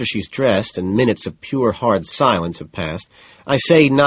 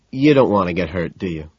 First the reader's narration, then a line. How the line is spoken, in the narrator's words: sighs